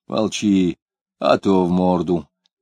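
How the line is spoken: Very calm, unthreatening. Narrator (Russian): сказал он очень спокойно, без угрозы

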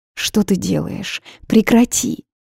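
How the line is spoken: Nearly pleading. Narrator (Russian): Почти взмолилась я

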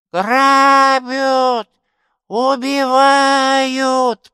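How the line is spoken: Old woman's shrill scream. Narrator (Russian): Пронзительно завопила старуха

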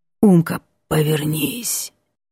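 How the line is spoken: Hoarse voice from behind. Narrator (Russian): за спиной раздается хриплое

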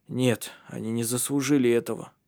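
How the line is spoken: Hoarse. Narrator (Russian): хрипло сказал Ари

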